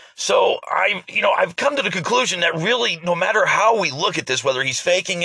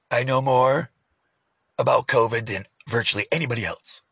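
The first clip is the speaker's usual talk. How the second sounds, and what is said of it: Impression of the president. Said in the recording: “my impersonation of the president”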